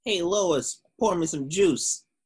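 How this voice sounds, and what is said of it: Cartoon character voice impression. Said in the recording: “that was a pretty good Peter Griffin impression”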